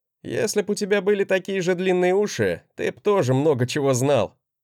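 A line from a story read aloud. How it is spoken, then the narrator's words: Amused chuckle. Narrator (Russian): хохотнул я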